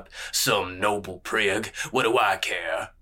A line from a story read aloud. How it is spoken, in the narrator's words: grunted